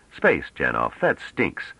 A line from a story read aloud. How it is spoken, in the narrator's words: Trevise said irritably